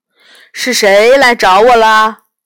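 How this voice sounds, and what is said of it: Loud, ringing voice. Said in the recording (Chinese): “很响亮的声音”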